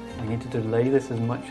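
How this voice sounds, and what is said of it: Whispering. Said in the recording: “I'm sort of going to whisper to Lucius.”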